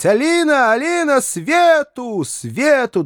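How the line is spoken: Loud echoing shouts. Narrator (Russian): Да так громко, что крики его отозвались во всех углах обширных сеней дома

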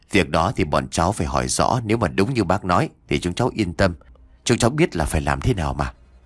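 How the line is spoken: Soft, smiling. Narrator (Vietnamese): Anh công an mỉm cười khẽ nói

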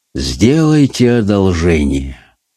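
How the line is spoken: Muffled, hollow. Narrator (Russian): глухо произнес

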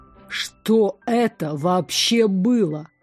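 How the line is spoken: Hissed. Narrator (Russian): прошипел Мартиник

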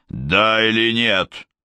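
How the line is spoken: Strange bark. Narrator (Russian): рявкнул Гуннар странно

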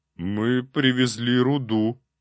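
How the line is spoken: Timid reply. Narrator (Russian): робко ответил один из кобальтов

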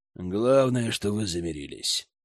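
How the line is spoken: Grumbling mutter. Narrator (Russian): буркнул Оливьер

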